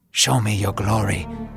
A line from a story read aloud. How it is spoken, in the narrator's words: Moses whispered